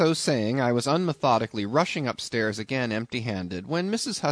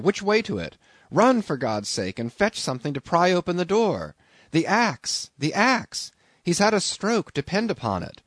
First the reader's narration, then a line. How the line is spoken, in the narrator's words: cried I